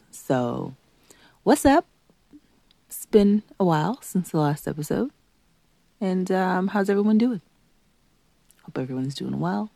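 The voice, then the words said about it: Slightly congested voice. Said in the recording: “A little congested still. Maybe you might hear it in my voice.”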